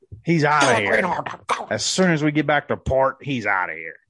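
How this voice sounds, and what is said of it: Weak put-on Scottish accent, sounds Irish. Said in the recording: “I can't do a Scottish accent. I bet it'd be much Irish.”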